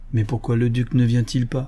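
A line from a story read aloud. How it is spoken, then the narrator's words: Plain. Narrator (French): demanda Franck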